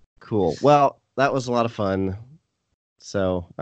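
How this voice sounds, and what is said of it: Flat monotone delivery. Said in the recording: “I say that super monotone.”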